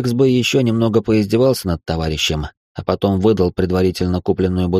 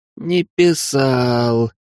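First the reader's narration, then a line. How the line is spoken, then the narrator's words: Exhausted breathless exhale. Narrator (Russian): из последних сил выдохнул Смирнов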